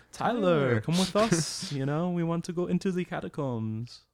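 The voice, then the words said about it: Put-on French woman's accent. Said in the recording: “That was pretty... spot on. Accent. ... Yeah, that was bad.”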